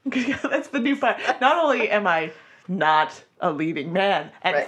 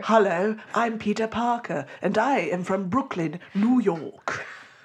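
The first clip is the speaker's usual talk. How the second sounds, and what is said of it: Put-on British accent. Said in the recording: “I'm going to do a British accent.”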